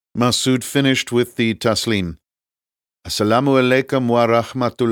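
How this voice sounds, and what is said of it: Usual voice. Nothing is said of it.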